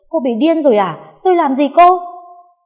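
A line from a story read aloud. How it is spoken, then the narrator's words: Shocked shout. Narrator (Vietnamese): Con Hiền bàng hoàng, chỉ hét lên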